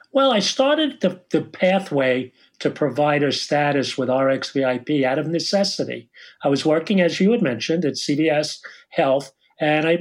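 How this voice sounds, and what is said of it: New York Long Island accent. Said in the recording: “I'm calling from Long Island, you can't tell by my accent, New York”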